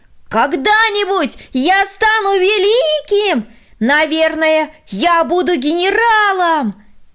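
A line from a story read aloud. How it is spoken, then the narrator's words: Shouting from afar. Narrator (Russian): Еще издали он прокричал ей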